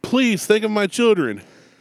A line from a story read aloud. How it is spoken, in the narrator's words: she exclaimed